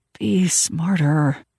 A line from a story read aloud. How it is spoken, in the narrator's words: I hissed to myself